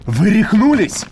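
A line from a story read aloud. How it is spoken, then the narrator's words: Shouting over shoulder. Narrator (Russian): крикнул Вит через плечо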